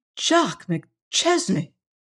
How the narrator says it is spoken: gasped

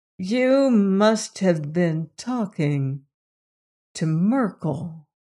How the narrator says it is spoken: she said slowly

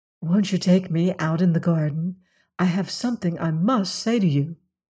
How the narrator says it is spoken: she whispered

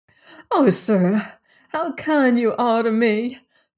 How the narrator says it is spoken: cried the cook

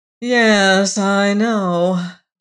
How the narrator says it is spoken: drawled Emma McChesney

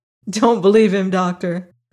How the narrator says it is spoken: laughed the girl

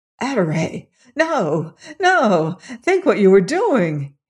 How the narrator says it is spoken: he cried sharply

